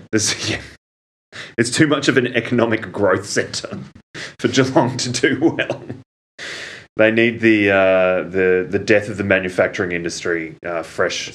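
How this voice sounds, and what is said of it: Impression of co-host's voice. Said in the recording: “impersonated my voice”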